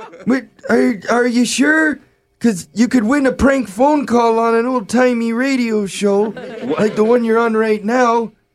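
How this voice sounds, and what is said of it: Old man voice. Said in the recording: “that was my old man voice”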